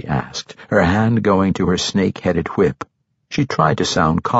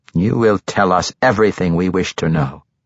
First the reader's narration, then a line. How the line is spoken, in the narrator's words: Barilip said